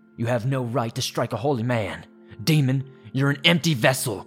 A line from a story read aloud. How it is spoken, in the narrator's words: John barked